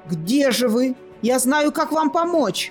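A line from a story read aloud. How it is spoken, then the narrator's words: Child shouting out. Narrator (Russian): выкрикнул мальчик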